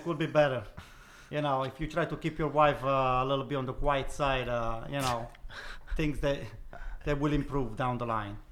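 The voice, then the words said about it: Imitates another person's voice. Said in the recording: “Do the voices too, if you could. ... This is Spalletti.”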